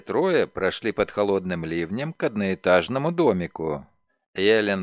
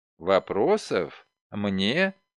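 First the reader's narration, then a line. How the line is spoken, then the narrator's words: Flat, colorless question. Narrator (Russian): спросила женщина бесцветным голосом, не позволяющим сделать вывод об испытываемых ею чувствах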